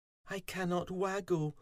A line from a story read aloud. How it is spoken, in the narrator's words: poor Fuzzy moaned